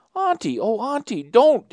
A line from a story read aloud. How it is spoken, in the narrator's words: exclaimed Theodora impulsively